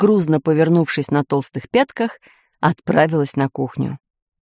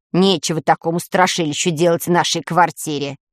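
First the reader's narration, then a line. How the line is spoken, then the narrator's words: Grumbling, less fiercely. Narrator (Russian): Буркнула тетя Нинель уже не так яростно, скорее просто, чтобы сразу не сдавать позиций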